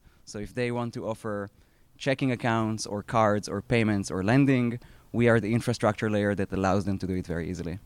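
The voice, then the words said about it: Israeli-accented English. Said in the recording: “I previously spent 10 years at a fintech B2B company that I co-founded in Israel. That's where my accent is from.”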